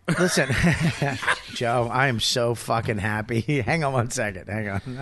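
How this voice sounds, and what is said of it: Usual voice. Nothing is said of it.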